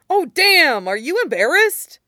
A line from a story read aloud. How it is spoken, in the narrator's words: Mike exclaimed, with genuine shock